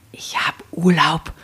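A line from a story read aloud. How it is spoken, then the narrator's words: Woman hissing. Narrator (German): zischte sie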